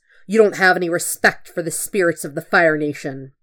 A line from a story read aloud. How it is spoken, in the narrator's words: Zuko hisses